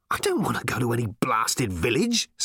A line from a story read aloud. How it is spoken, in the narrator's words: snapped Ford